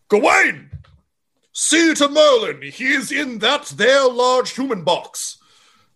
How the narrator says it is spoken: the first knight of the Order of the Bowtie yells

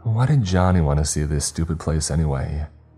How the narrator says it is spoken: Vicky asked

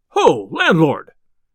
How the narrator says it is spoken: cried he

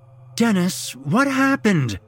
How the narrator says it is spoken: she pleaded

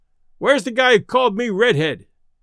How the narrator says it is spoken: he yelled

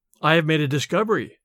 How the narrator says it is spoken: he says

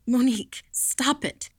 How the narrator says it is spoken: she gasped

